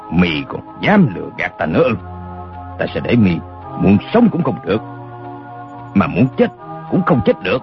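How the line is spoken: Menacing growl. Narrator (Vietnamese): Đinh Xuân Thu ... gằn giọng nói

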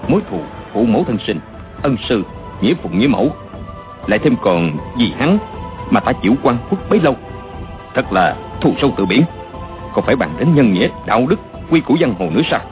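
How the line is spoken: Soft, venomous, resolute. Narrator (Vietnamese): Mấy câu đó chàng chỉ nói khẽ nhưng đầy oán độc, tưởng như chém đinh chặt sắt không bằng

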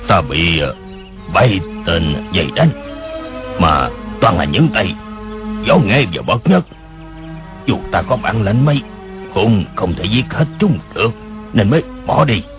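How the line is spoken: Alternately shrill and deep voice. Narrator (Vietnamese): Tiếng người khi the thé khi ồm ồm kia nói

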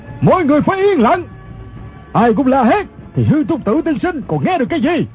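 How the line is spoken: Commanding shout. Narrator (Vietnamese): Người quát lên chính là thủ lãnh quần hào Ô Lão Đại

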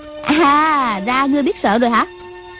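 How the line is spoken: Girl's sneering question. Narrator (Vietnamese): Thiếu nữ cười khẩy hỏi

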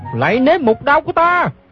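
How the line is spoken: Shouting. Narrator (Vietnamese): Gã la lên

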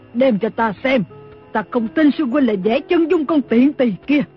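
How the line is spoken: Scream. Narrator (Vietnamese): Lý Thu Thủy ... thét lên

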